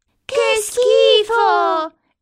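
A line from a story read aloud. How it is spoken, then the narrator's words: Exclaimed. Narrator (Italian): esclamano Milly e Molly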